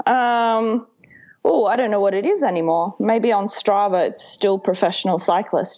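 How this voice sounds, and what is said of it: Australian accent. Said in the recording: “clearly an Australian with the accent”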